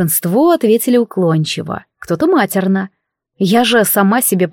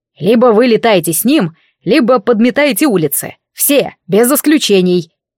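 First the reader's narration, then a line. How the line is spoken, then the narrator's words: Irritated bark. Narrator (Russian): рявкнул пламенеющий, когда ему надоел наш гвалт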